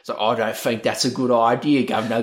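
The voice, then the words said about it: Thick South London accent. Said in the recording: “incredibly thick, like South London accent where he sounds like he's from Snatch... He sounds like Ray Winston”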